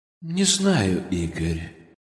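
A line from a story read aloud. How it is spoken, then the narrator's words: Gloomy voice. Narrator (Russian): мрачным голосом сказал он тогда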